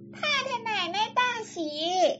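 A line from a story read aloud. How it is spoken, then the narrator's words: Hurried young maids. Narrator (Chinese): 几个小丫头奔进来，也来不及告诉大丫头，直接进房说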